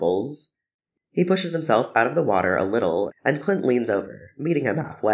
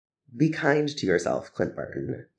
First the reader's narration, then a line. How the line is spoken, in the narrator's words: says quietly